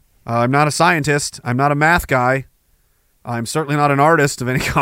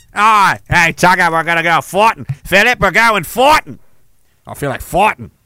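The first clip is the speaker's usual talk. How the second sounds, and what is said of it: Bad put-on Australian accent. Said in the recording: “That's the worst Australian accent.”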